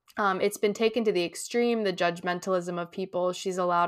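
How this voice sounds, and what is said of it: Usual voice. Nothing is said of it.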